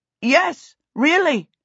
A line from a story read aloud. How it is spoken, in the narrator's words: Peter shouted through the noise